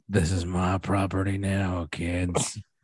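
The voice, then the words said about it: Imitates another person's voice. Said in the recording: “doing my Harrison Ford voice”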